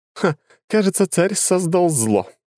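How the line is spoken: Laughing. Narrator (Russian): рассмеялась Лора

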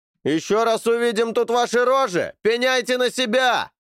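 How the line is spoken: Shouted after them. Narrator (Russian): крикнули им вдогонку

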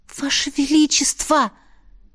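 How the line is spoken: Hissed. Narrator (Russian): прошипела я

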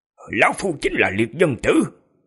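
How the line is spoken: Cold, calm old man. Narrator (Vietnamese): Lão lạnh lùng ... bình thản nói

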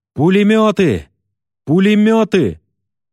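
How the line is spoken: Sudden shouting from ahead. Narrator (Russian): вдруг идущие впереди закричали

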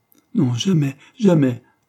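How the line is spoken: Sobbing. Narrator (French): sanglota Anna

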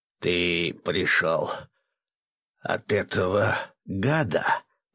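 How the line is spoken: Hoarse old woman. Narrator (Russian): прохрипела старуха

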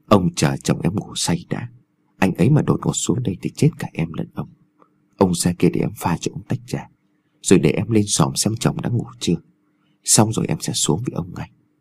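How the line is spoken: Soft, coaxing whisper. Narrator (Vietnamese): dùng giọng nhẹ nhàng thỏ thẻ

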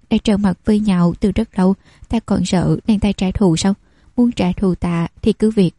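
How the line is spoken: Soft laugh. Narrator (Vietnamese): Vân Hiểu Tình này cười khẽ

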